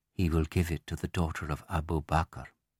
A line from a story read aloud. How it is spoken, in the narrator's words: wives whisper wryly to each other